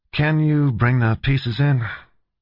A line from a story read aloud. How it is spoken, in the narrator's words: he asked in a disinterested tone